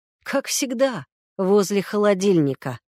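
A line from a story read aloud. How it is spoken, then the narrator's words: Snorting. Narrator (Russian): хмыкнул Егор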